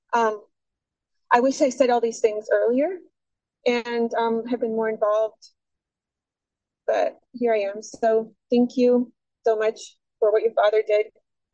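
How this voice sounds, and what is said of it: Emotional voice cracking. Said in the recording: “my voice is cracking because I feel really sad about it”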